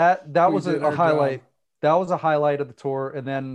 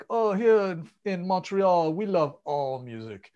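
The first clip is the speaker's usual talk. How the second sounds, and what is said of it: Snooty French accent. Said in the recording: “in like the snootiest French ... that typical kind of French snob accent”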